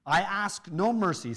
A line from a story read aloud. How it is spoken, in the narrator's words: said Damon